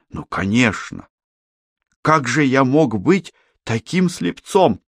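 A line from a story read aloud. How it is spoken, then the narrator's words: Exclamation. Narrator (Russian): Иверсон воскликнул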